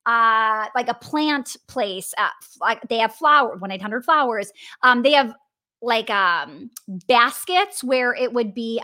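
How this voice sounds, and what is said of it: Wisconsin accent on one word. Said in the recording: “I just could totally hear my Wisconsin accent come out... I said baskets, very funny”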